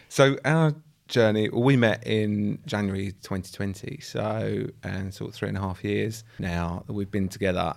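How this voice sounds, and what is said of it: Essex English accent. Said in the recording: “I'm from Essex. ... I'm also from Essex. You can probably tell by the accents”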